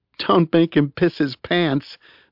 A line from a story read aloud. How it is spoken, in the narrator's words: said Eve, fighting a laugh